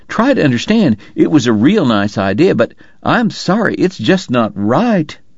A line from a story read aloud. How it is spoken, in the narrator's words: Wyatt pleaded